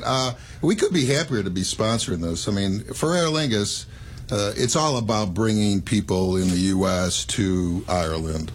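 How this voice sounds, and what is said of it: Irish and Chicago accent mixture. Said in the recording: “I'm Irish, but I have a Chicago accent... Kind of a mixture there”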